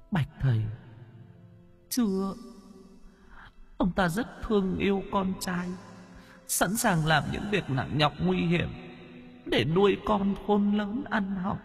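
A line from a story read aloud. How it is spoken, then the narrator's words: Ghost woman, near tears. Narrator (Vietnamese): Nữ quỷ mếu máo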